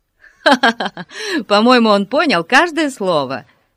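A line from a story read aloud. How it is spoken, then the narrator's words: Laughing. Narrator (Russian): рассмеялся Ларри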